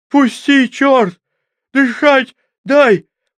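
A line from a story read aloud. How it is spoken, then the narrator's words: Hoarse wheezing. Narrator (Russian): просипел белобрысый побелевшими губами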